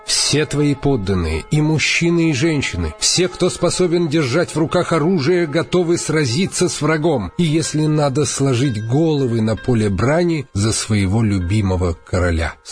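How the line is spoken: Plain. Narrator (Russian): сказали они

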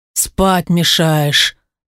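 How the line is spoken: Grumbling stepfather. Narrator (Russian): проворчал отчим

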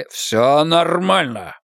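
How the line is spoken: Growled. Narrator (Russian): прорычал фьерданец

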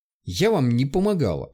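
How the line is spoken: Nervous snapping retort. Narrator (Russian): огрызнулась, нервозно ощерившись

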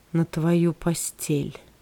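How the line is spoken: Faint dying whisper. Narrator (Russian): почти угасшим голосом он прошептал

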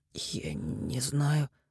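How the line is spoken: Hoarse rasp. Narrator (Russian): прохрипел

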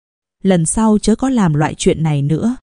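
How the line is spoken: Softly spoken. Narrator (Vietnamese): nàng nói khẽ

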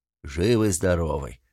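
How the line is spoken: Booming deep male voice. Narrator (Russian): прогудел могучий телом бородач

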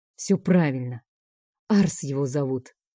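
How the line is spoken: Angry. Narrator (Russian): зло произносит Бер

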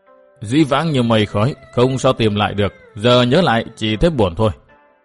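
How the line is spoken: Deep breath, then mutter. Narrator (Vietnamese): Thiết Tán Tôn giả hít vào một hơi dài, lẩm bẩm

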